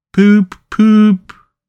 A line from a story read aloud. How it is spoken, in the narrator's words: He breathed short, his face wore a placid, satisfied expression, and at intervals he faintly murmured